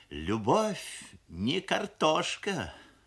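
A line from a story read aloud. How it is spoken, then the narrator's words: Sigh. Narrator (Russian): вздохнула мамаша, шеф-повар фабрики кухни номер 7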